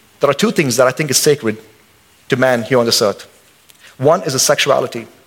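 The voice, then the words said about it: Indian accent. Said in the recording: “I'm an American citizen, but I'm still an Indian. I still got my head nod, and I still got my accent”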